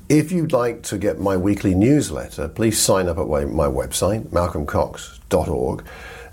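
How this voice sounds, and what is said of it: Hoarse voice from a cold. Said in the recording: “I apologize for my voice. I've got a stinking cold and a bad throat”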